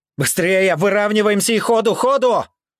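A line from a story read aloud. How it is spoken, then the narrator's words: Yelling over radio. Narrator (Russian): Заорал в рацию я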